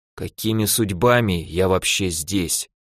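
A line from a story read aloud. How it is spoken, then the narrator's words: Barely audible whisper. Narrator (Russian): прошептал чуть слышно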